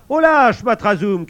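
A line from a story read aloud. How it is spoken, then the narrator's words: Guard shouting. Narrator (French): crie le garde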